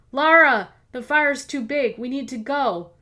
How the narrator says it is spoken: Someone shouted in the distance

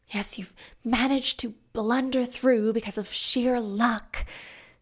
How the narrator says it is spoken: she hissed at him

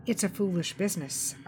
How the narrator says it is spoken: I said

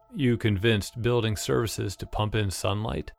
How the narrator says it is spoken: I said

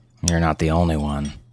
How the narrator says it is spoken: her husband Steve mumbled

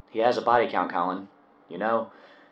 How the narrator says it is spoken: Her voice was even quieter than before as she said

